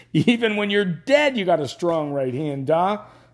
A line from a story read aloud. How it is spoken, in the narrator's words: Dennis thought hysterically